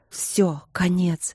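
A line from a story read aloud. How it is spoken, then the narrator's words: Whispering. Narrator (Russian): Страх шептал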